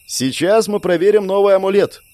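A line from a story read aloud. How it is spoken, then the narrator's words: Loud, carrying voice. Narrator (Russian): громко произнес, стараясь, чтобы даже в речке меня услышали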